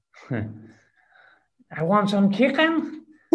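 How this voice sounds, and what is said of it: Put-on Scouse accent. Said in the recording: “Can you give us a little Scouse accent?”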